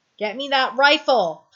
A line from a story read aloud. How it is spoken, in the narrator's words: Tom shouts